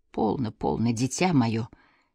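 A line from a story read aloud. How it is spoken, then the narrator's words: Quiet. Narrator (Russian): тихо сказал Свон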